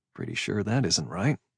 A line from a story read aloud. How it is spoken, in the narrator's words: I said under my breath